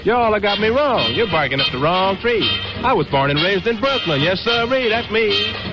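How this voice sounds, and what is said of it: Southern drawl. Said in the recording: “how come you talk with that southern drawl”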